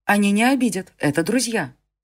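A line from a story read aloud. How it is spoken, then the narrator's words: Hurried speech. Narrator (Russian): торопливо сказала Селена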